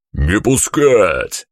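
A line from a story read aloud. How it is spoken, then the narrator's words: Yelling. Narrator (Russian): заорал Семен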